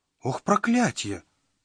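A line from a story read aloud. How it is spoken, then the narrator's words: Panicked exclamation. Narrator (Russian): панически воскликнул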